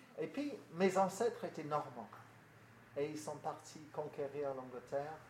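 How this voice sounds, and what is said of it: English accent speaking French. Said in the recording (French): “Vous avez compris par mon accent que j'ai des origines au-delà de la Manche.”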